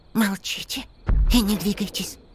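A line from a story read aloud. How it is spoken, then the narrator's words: Hissed. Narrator (Russian): прошипел Мола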